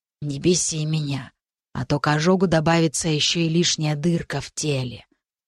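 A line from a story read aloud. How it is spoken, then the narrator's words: Quiet but distinct. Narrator (Russian): Тихо, но отчетливо сказала Рики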